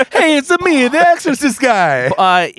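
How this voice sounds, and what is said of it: Exaggerated put-on Italian accent. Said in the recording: “He puts on this Italian accent”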